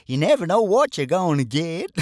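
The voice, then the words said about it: Bad Forrest Gump impression. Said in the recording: “my very bad impression of Forrest Gump”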